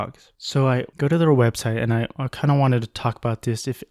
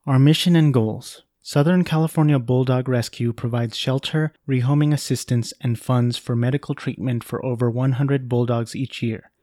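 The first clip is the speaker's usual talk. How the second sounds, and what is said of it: Formal read-aloud voice. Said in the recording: “put on my good reading voice.”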